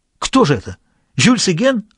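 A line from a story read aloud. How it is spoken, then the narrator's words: Frantic exclamation. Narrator (Russian): воскликнул совершенно обезумевший Альбер Приволь-Лемер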